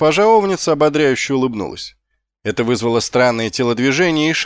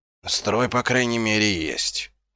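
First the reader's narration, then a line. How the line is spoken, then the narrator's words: Mutter. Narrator (Russian): пробормотал Ваймс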